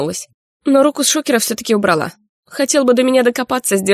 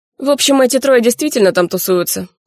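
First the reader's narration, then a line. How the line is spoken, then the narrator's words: Amused snort. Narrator (Russian): хмыкнул он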